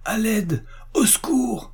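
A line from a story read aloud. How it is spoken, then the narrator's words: Crying out. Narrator (French): s'écria Emily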